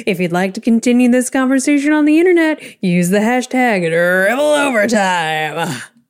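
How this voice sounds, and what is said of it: Radio announcer voice. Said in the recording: “That was my radio voice.”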